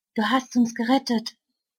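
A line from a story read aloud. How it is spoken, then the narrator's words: Murmured. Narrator (German): murmelt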